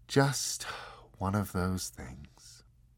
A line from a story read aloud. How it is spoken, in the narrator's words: the angel sighed and said, very quietly and with deep regret